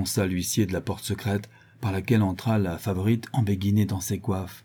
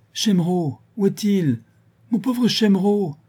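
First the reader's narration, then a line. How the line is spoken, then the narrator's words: Exclaiming. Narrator (French): s'écria Mademoiselle de Vosselet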